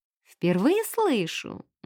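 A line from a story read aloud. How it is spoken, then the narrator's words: Playful purr. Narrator (Russian): мурлыкнула леди Сибил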